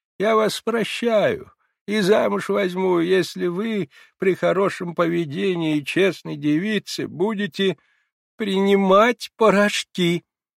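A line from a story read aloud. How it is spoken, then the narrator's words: Muffled, nervous laughter and sobs. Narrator (Russian): послышалось из-под одеяла с тоненьким, как колокольчик, нервическим смехом, прерываемым рыданиями, очень мне знакомым смехом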